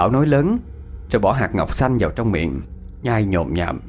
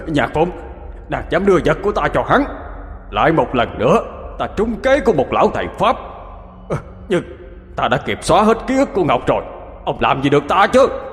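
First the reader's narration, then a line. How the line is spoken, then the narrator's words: Exhausted old man's shout. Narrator (Vietnamese): già đuối sức sau khi gào thét, ông ta quát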